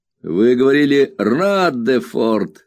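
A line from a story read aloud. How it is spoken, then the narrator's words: Laughing objection. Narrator (Russian): смеясь возразил Хэм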